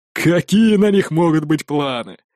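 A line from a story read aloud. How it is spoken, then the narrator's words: Laughing. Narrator (Russian): рассмеялся Эрик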